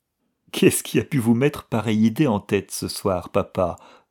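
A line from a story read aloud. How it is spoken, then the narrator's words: Laughing question. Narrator (French): demanda Diana en riant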